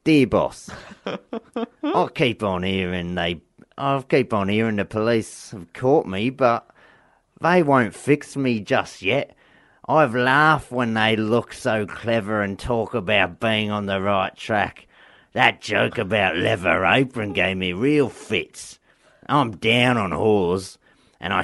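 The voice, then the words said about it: Put-on accent while reading. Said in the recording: “he's gone for an accent. I love it.”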